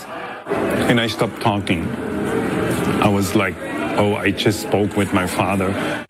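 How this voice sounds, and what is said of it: German accent. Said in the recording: “I hear an accent. Where is your accent for? I said, from Germany.”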